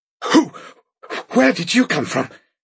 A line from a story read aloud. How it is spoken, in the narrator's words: said Bonneville hoarsely